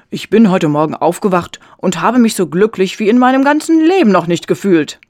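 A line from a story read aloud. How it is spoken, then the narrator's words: Calling out. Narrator (German): rief er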